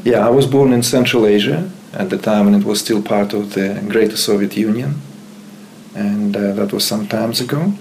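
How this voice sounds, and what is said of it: Uzbek-accented English. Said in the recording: “you have an accent. ... It's the East, right? Uzbekistan.”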